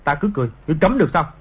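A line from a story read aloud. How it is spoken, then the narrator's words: Angry. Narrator (Vietnamese): Trịnh Khắc Sản tức giận nói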